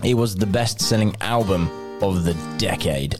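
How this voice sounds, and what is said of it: Radio announcer voice. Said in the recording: “you get a really radio voice then”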